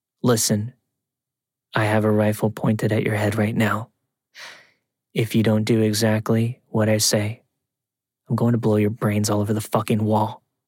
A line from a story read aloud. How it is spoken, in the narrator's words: I heard a man's voice who calmly said